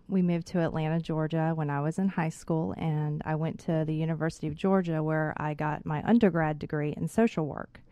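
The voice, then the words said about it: Slight Texas drawl. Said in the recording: “I'm originally from Dallas, Texas, so my drawl might come out a little bit.”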